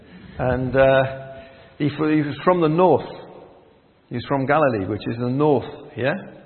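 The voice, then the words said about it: Geordie accent. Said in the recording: “I'm a Geordie, by the way. So I'm bilingual. I speak Geordie and English.”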